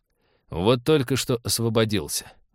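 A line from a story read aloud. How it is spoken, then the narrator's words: Gloomy admission. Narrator (Russian): мрачно признался Станислав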